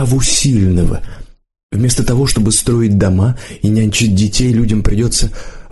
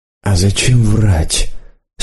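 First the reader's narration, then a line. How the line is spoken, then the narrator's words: Quiet question. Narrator (Russian): спросила Лидка тихо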